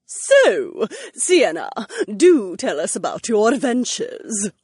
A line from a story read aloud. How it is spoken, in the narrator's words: Lady Fontaine purred